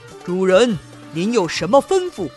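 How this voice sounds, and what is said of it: Booming, thunderous giant's voice. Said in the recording (Chinese): “他用雷鸣般的声音说”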